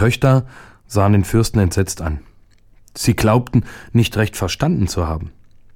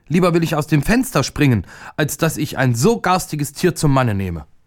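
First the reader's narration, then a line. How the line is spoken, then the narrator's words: Furious woman screaming. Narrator (German): Die älteste Prinzessin wurde vor Zorn ganz weiß und schrie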